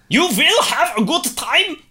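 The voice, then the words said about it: Put-on German accent. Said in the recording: “Doing the German accent again”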